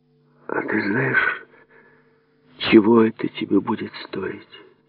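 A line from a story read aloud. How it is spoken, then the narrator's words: Very quiet, gravely serious question. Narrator (Russian): Совсем тихо, с величайшей серьезностью в голосе, спросила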